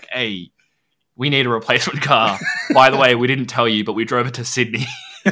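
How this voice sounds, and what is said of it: Big dad voice. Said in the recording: “put on my big dad voice.”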